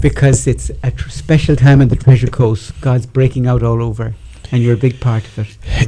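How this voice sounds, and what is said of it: Southern Irish accent. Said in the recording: “My accent is Irish... Southern Irish”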